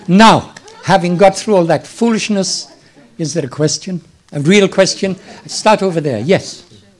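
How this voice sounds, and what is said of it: Slightly hoarse voice, mixed accent. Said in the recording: “my accent is a funny mixture, and I think I have a slight cold coming on, so there's a little hoarseness,”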